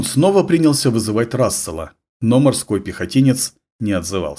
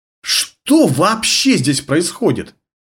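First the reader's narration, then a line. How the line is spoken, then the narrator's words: Desperate exclamation. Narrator (Russian): отчаянно воскликнул Ларнер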